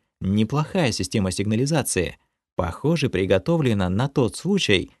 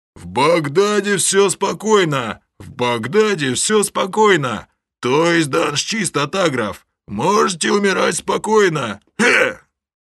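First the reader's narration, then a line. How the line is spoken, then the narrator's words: Drawn-out shout through megaphone. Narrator (Russian): Один из алого креста, дюжий лысый детина, поднес к рту деревянный рупор и протяжно закричал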